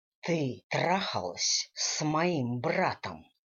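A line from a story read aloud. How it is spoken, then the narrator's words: Angry growl. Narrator (Russian): прорычал Дэниел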